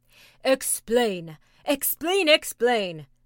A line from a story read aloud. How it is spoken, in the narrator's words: cried all the tribe of Tegumai